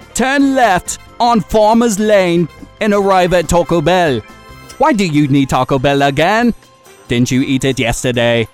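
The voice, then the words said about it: Put-on British accent. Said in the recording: “what is this voice you're doing? It's a British accent ... It was simply not a British accent.”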